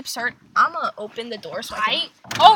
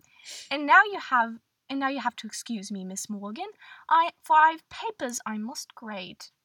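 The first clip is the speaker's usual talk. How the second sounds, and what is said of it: Put-on British accent. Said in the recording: “I can't keep this British accent up”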